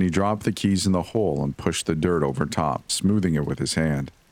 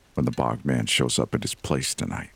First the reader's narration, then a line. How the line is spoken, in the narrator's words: Dad said quietly